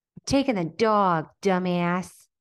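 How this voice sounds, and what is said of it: Impression of Legally Blonde character. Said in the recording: “impersonations”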